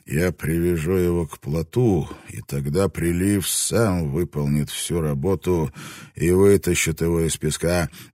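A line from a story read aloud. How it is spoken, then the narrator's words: Quiet, in English. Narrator (Russian): негромко сказал Блэкторн вслух по-английски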